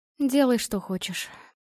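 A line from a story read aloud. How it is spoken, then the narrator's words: Tired agreement. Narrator (Russian): устало согласилась Наталья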